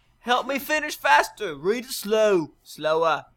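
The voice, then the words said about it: Put-on Australian accent. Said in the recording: “please read this on the show in an Australian accent ... I'm probably one of the world's best accenters. And if you thought it was bad, that's your fault.”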